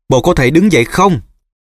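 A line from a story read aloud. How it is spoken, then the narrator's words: Shouting into ear. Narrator (Vietnamese): Nó hét vào tai Nevin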